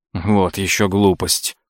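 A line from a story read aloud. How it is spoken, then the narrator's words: Muttered. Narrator (Russian): пробормотал Том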